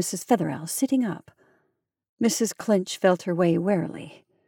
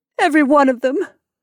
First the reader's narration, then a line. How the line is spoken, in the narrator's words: the novelist sobbed